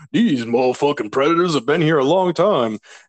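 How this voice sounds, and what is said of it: Imitates another person's voice, poorly. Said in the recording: “terrible Danny Glover impression”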